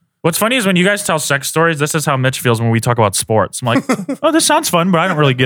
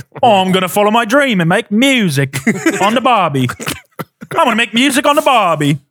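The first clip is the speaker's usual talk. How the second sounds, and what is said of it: Put-on Australian accent. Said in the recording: “with an Australian accent”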